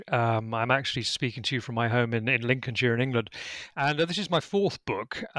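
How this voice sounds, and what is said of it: British accent. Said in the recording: “as I think you can tell from my accent, I'm British”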